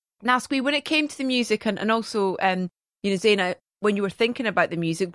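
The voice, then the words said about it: Scottish accent. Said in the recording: “my accent being Scottish”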